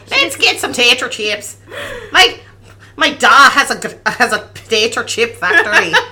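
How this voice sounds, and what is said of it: Put-on Irish accent. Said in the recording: “the Irish ... That accent was as good as Harry Hook's”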